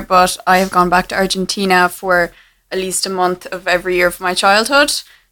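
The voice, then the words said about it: Irish accent. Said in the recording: “As you might be able to tell from my accent, I'm Irish”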